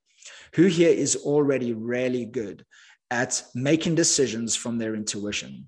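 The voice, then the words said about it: Accent where really sounds like rarely. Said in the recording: “my accent's a bit funny. When I say really, I mean like really ... not rarely.”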